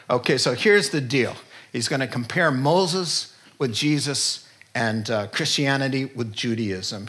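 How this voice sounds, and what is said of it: New York accent. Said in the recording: “complete with a New York accent”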